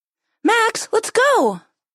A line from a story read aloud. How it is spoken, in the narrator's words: yelled Corley